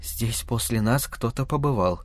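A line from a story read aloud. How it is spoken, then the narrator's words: Horrified whisper. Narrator (Russian): прошептала она в ужасе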